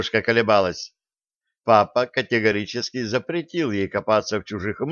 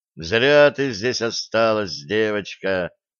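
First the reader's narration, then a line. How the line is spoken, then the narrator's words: Sad sigh. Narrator (Russian): Капитан вздохнул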